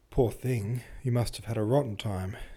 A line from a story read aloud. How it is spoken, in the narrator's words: she murmured